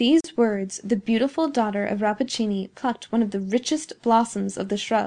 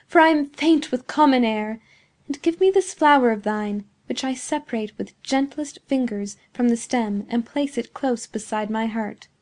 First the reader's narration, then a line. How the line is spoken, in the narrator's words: exclaimed Beatrice